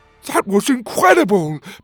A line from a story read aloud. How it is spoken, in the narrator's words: Petey shouted